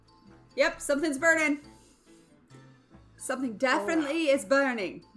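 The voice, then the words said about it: Unsuccessful put-on accent. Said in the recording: “That's not the right accent.”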